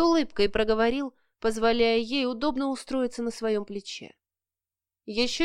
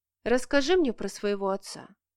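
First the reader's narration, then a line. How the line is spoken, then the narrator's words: Quiet tentative question. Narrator (Russian): тихо спросила, не особо рассчитывая на удачу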